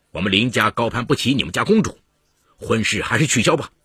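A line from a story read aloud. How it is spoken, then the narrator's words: Angry. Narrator (Chinese): 林泽怒气冲冲地说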